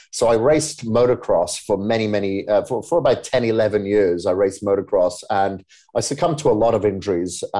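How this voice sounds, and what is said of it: Welsh accent. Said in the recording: “this weird accent that you're listening to is from Wales”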